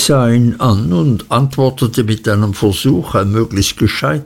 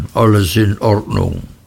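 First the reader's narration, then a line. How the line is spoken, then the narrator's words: Grumbled. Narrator (German): brummte er dann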